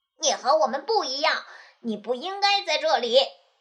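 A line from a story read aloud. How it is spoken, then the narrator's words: Mocking. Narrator (Chinese): 他们嘲笑他说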